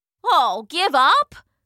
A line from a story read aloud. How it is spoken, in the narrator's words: scoffed Sinon